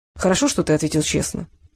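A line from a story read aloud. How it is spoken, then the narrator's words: Calm. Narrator (Russian): спокойно продолжил очкарик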